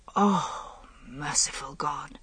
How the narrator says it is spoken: he said in a whisper

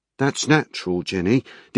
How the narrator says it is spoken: DC Turner said quietly

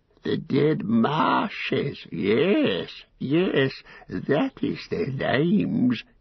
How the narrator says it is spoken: he cackled

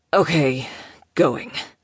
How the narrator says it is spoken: he rasped

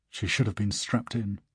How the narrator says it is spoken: mutters

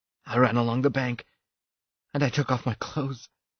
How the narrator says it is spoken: he said breathlessly, his smile incredulous

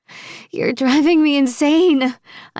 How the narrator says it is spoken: I groan, attempting to hold off my impending orgasm

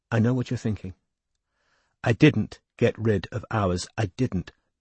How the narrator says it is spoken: said quietly

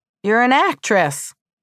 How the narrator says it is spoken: exclaimed

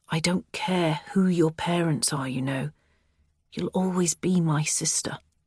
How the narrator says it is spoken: he murmurs

